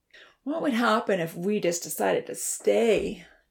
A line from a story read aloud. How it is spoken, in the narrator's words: Dia moaned